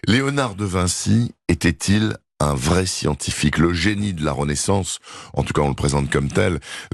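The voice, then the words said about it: Hoarse voice. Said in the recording (French): “avec ma voix bien enrouée”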